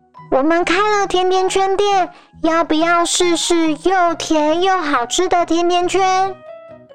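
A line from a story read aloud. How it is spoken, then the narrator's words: Loud hawking. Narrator (Chinese): 松鼠大声叫卖着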